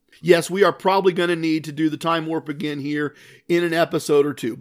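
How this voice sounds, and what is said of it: Sick, under-the-weather voice. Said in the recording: “as you may hear in my voice, I have been a bit under the weather”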